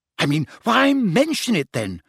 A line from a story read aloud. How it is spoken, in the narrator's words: She said impatiently